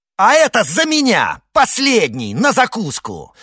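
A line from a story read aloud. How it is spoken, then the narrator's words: Furious shout. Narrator (Russian): в бешенстве крикнул Д'Артаньян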